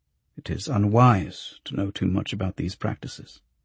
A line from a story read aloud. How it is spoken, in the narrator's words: the archivist murmured